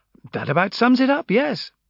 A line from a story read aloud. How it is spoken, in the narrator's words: Amberley admitted cheerfully